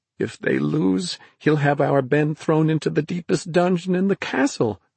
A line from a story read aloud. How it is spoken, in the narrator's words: she moaned